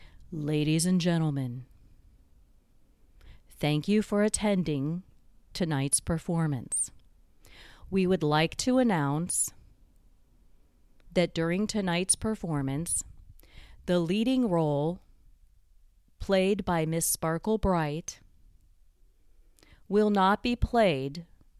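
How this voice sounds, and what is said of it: Deep announcer voice. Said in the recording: “this deep voice comes over the loudspeaker. That's my imitation of a deep voice. And the deep voice coming over the loudspeaker”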